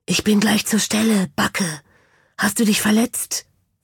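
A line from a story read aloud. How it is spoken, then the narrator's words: Whispered. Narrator (German): flüsterte es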